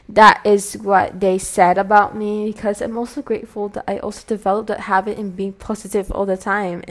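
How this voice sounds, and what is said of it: Speaks with a British-style accent. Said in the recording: “my accent, this is my natural accent ... I also apply this British accent ... That's why my accent is like this ... adapt this accent”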